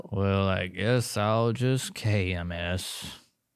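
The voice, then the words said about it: Gloomy, depressed cartoon donkey voice. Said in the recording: “my best Eeyore impression ... How does Eeyore go? ... he's the depressed donkey”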